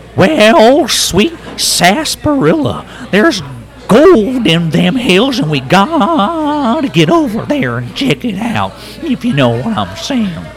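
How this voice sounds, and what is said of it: Silly character voice. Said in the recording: “That was awesome. Do you do any voiceover work? ... Silly voices are never wrong.”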